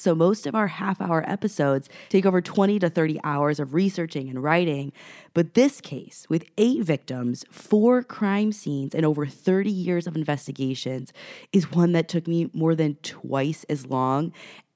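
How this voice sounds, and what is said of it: Sick, strained voice. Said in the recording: “while I'm sick, so I apologize for my voice”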